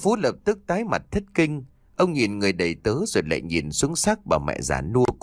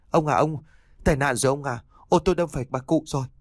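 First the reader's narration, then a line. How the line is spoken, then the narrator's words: Trembling, stammering reply. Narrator (Vietnamese): Anh cả Lâm run rẩy lắp bắp mãi thành tiếng đáp lại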